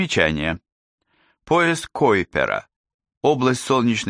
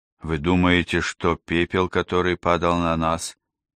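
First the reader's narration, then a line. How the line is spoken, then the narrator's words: Hoarse unfriendly question. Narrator (Russian): хриплым и недружелюбным голосом спросила миссис Рэпка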